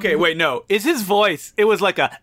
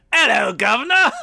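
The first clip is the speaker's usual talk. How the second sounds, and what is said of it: Put-on British accent. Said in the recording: “essentially me doing a British accent.”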